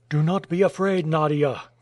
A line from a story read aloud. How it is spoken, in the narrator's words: cried Michael Strogoff